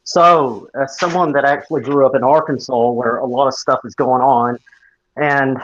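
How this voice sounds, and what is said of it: Strong Southern American accent. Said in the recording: “that's an accent and a half. ... it's a hell of a southern accent”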